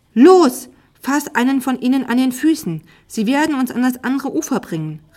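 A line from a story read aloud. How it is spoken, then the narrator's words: Called out. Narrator (German): rief sie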